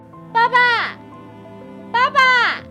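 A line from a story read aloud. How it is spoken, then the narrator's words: Loud call. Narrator (Chinese): 哈米大声地叫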